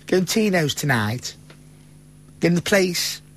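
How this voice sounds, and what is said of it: Fairly decent put-on Stoke accent. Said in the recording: “I can say it in a fairly not bad Stokey accent”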